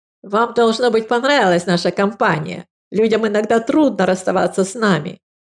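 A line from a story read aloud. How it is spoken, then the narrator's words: Speech then coarse laugh. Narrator (Russian): проговорил стоявший человек и грубо захохотал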